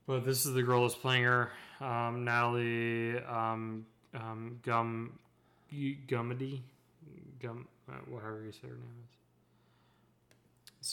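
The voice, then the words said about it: Speaks with a noticeable accent. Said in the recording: “For those that can't hear over my accent.”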